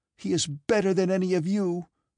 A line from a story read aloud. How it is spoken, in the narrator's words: exclaimed Natasha